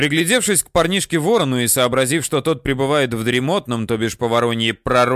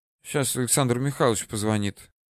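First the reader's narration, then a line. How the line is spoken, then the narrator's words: Sleepy. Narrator (Russian): не открывая глаз, сонно сказал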